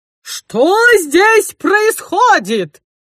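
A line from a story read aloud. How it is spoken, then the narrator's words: Roaring woman. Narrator (Russian): взревела она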